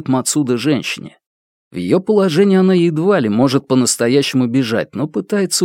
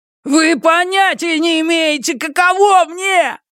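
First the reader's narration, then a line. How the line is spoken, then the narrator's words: Young man yelling. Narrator (Russian): вопит парень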